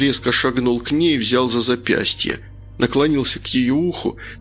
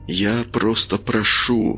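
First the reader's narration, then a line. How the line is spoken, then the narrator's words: Whispered. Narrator (Russian): прошептал Каин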